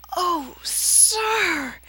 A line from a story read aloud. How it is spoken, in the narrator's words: he breathed